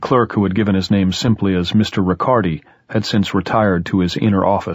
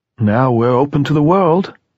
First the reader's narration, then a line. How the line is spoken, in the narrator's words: said bitterly